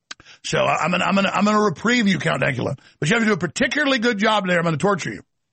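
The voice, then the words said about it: Texas accent. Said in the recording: “my real Texas accent”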